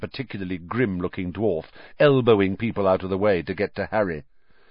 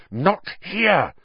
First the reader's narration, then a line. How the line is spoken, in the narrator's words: hissed, trying to escape